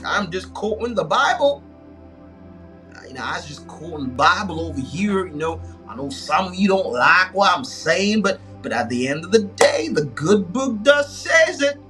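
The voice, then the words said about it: Attempted Texas accent. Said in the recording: “my stupid Texas, my attempt at a Texas accent”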